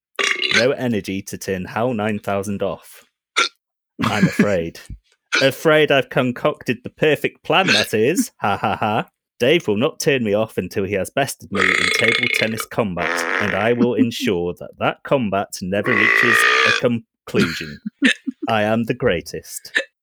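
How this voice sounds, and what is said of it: Robot voice. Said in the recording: “that's my robot voice ... That was uncanny”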